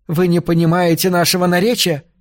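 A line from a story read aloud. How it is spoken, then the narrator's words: Shouted. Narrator (Russian): крикнула она Вилли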